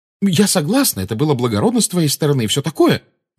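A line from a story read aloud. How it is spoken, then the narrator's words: Quick. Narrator (Russian): быстро сказала Гермиона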